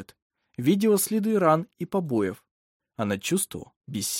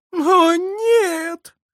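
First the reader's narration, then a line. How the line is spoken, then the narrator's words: Woman sobbing. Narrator (Russian): зарыдала женщина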